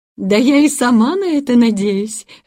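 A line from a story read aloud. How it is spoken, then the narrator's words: Laughing. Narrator (Russian): рассмеялась тетушка Брингер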